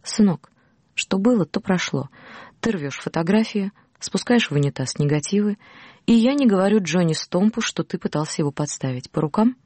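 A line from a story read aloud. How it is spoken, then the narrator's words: Soft, heavy Oklahoma accent. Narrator (Russian): Бас мягко, акцентируя свой оклахомский акцент, сказал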